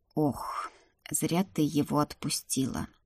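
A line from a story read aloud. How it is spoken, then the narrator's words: Thoughtful drawl. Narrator (Russian): задумчиво протянул Донар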